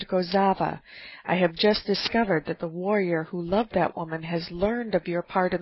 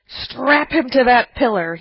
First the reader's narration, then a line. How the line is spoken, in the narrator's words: shrieked